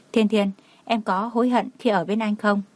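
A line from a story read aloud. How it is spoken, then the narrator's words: Soft, quiet. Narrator (Vietnamese): Cảnh Liêm Uy khẽ nói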